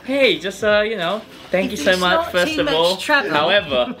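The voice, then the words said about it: Put-on polite British accent. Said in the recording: “a very British text ... Very British. Really polite. ... In his accent? ... It's like double polite.”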